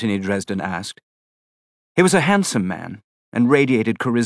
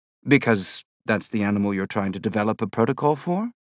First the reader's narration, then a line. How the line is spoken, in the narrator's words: I said, my voice turning up at the end of the sentence as if it were a question